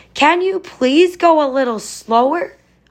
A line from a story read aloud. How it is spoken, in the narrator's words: Oscar shouted